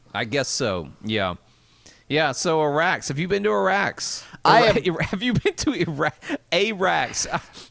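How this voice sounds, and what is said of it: Southern American accent. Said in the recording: “my southern accent is going to make this sound like me just saying, have you been to Iraq?”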